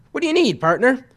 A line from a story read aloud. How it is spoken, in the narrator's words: eagerly